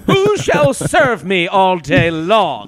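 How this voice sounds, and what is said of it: Put-on English accent. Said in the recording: “is in an English accent.”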